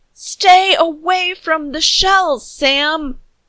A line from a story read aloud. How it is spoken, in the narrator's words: Captain Louise screamed, her voice thin and panicked